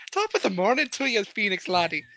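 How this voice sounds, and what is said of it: Put-on Irish accent. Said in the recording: “Just give him some stupid accent. ... you weren't Irish yesterday.”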